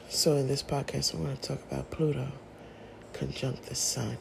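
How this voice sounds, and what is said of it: Sick voice that cuts in and out. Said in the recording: “pardon my voice. I am still battling with this flu. ... My voice goes in and out.”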